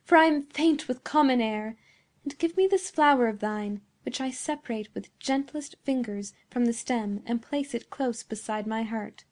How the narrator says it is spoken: exclaimed Beatrice

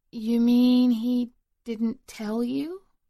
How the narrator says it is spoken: stiffened, exchanged a wary glance before the shorter one, he thought her name was Peggy, said slowly

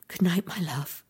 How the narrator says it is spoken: whispered

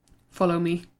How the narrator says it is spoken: muttered Pete

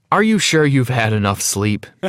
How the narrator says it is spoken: He laughed

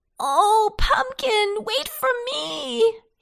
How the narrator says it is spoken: he cried

